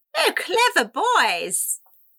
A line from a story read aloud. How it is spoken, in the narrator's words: Rosalba cried